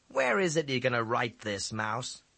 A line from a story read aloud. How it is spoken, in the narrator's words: He asked scornfully